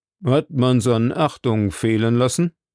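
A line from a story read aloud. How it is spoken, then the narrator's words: Plain question. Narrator (German): fragte Obadiah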